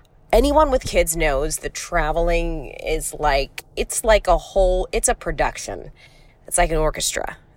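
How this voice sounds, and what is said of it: Congested voice, lower than usual. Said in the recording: “do you hear that little twinge in my voice? Do I sound like an octave lower than normal? I've got a massive head cold”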